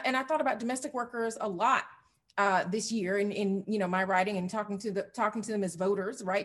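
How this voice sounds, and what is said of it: Southern American accent. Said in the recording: “This is, you know, a Southern accent, not a South Philly accent.”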